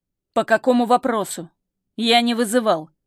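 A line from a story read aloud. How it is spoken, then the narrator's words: Cold question. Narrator (Russian): холодно спрашивает Юсупов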